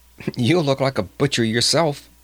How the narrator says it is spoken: she laughed

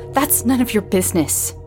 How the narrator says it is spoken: Samantha snapped

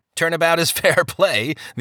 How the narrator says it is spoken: the other man laughed

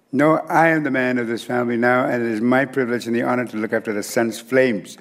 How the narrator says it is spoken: said the boy

